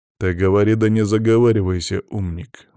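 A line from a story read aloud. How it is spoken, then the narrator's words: Gloomy reply. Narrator (Russian): мрачно ответил Иван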